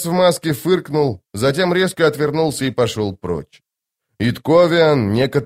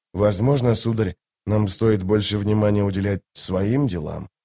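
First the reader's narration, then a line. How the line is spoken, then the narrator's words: Whispered. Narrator (Russian): прошептал Дестриан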